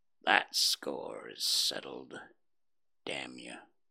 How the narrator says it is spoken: The half-breed muttered

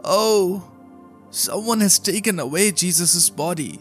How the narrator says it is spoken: She cried

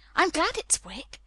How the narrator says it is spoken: she cried out in her whisper

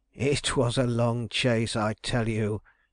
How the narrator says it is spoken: raising his voice still more

